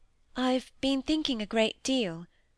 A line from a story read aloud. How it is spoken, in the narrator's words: said Molly timidly and doubtfully